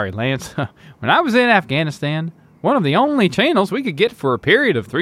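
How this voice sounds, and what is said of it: Usual voice. Nothing is said of it.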